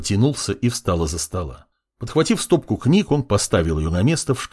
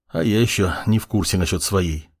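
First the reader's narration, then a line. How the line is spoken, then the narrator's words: Sighing. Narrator (Russian): вздохнул маг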